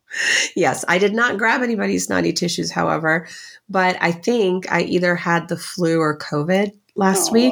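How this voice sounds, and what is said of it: Raspy, husky sick voice. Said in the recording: “raspy, sexy voice”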